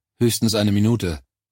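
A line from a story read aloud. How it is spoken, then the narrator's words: Slightly too curt reply. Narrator (German): entgegnete ich eine Spur zu schroff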